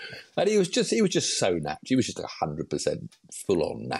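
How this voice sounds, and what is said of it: Usual voice. Nothing is said of it.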